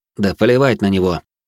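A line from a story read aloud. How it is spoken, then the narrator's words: Calm. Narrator (Russian): спокойно ответил я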